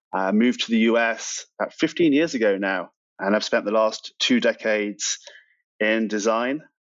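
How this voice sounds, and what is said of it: British accent. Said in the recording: “my accent ... I'm from the UK originally”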